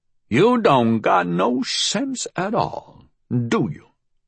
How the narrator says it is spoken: she said at last, her voice dry

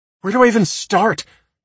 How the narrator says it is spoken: Sarah snaps

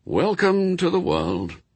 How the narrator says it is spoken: he said wearily

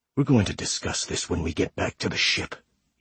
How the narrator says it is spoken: he whispers

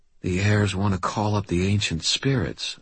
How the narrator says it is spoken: I breathed

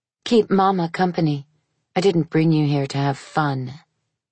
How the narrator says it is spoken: Leela said coldly

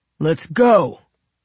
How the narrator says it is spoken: he called out

